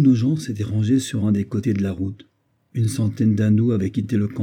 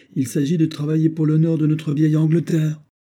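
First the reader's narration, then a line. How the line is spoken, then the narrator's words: Exclaimed. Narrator (French): s'écria-t-il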